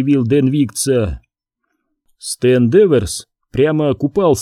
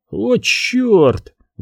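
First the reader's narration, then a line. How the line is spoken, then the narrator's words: Exclamation. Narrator (Russian): воскликнул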